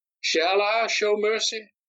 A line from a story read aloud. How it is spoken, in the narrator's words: Darius called out to the spectators